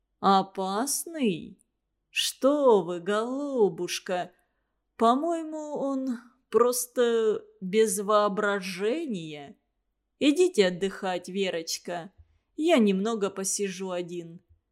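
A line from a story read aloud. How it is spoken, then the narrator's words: Slow deliberate speech. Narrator (Russian): сказал, медленно выговаривая слова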